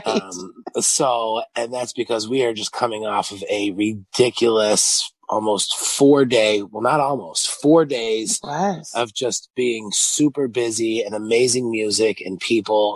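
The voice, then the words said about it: Raspy voice. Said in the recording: “my voice is a little more raspy than it usually is”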